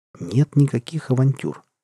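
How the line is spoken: Calm. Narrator (Russian): спокойно ответили

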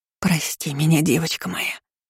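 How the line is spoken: Whispering. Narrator (Russian): шептала баронесса Тиверон

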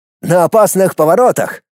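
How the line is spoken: Snorting amid eager humming. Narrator (Russian): хмыкнул Дмитрий, продолжая азартно напевать

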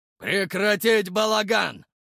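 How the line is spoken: Barking shout. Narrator (Russian): рявкнул Егорыч

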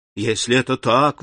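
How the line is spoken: Exclaiming. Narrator (Russian): воскликнул Альбер

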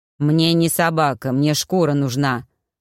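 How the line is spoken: Irritated birdlike creature. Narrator (Russian): раздраженно ответило существо, больше похожее на длинноногую птицу, чем на человека

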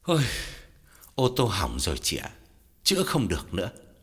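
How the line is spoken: Heavy sighing speech. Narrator (Vietnamese): Gã thở dài thườn thượt, bảo Lam

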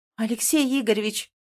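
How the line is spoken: Indignant exclamation. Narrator (Russian): возмущенно восклицаю я

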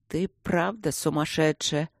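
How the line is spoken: Hopeless grumble. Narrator (Russian): безнадежно проворчал внутренний голос

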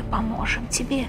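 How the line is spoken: Whispering voices. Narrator (Russian): прошептали сестры

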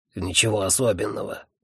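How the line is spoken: Grumbling. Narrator (Russian): проворчал Бегли

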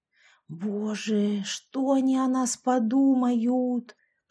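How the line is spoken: Whisper. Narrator (Russian): прошептала я

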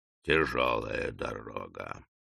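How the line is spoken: Deep sigh. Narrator (Russian): глубоко вздохнул Фингерс

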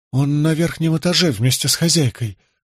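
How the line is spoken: Trembling voice. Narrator (Russian): дрожащим голосом сообщила женщина

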